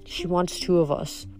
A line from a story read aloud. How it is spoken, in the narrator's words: Piper murmured